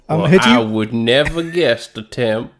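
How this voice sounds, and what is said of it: Idris Elba doing an American accent. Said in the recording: “my impression of Idris Elba's accent in this film”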